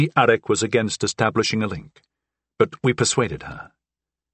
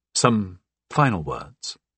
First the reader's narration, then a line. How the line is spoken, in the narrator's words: said softly